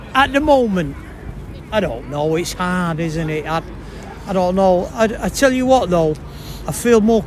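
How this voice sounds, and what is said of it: Very strong Mancunian accent. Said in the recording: “the world's most... Mancunian accent”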